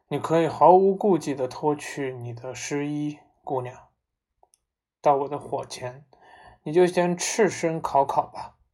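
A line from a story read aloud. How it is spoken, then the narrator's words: Sighing. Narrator (Chinese): 袁氏叹了一口气说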